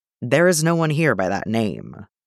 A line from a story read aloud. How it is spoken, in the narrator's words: Wayne says, coldly